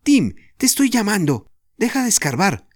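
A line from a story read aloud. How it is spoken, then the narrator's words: Shout. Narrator (Spanish): le gritó Jorge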